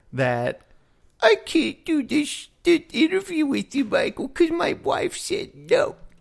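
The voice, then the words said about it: Imitates another person's voice. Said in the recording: “It's a very accurate impersonation you got there.”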